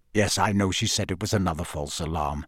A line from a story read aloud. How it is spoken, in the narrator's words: Sirius said hastily